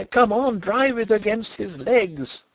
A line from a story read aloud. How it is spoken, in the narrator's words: I cried